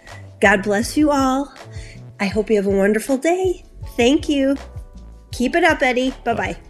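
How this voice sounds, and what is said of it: Distinctive accent like a well-known actress. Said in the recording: “I like ... accent, too. It has kind of a Joan Cusack accent.”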